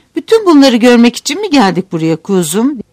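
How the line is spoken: Disappointed outcry. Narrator (Turkish): diye haykırdı düş kırıklığına uğrayan Bay Gregory

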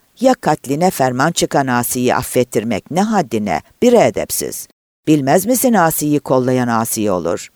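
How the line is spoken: Angry, gulping with rage. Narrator (Turkish): Öfkeyle yutkundu ve hiddet içinde

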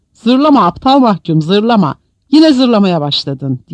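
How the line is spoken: Shouted. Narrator (Turkish): diye bağırdı

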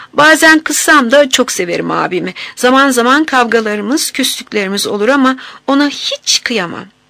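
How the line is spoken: Laughing. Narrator (Turkish): Leyla gülerek

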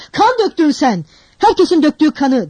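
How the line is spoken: Shouted. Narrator (Turkish): diye bağırdı Raskolnikov

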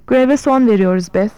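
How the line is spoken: Plain. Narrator (Turkish): dedi

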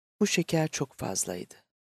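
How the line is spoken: Softly. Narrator (Turkish): Vera usulca

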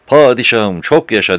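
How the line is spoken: Some people shouting. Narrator (Turkish): diye bağırırsa da bazıları

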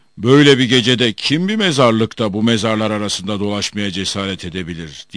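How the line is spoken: Genie shouting. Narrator (Turkish): diye bağırdı cin

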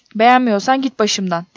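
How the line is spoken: Shouting. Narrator (Turkish): diye bağırdım

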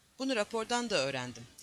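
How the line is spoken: Grumbled. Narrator (Turkish): diye homurdandı

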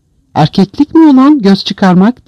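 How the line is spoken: Shouting. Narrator (Turkish): diye bağırıyordu

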